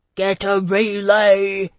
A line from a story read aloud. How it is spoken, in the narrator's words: he roared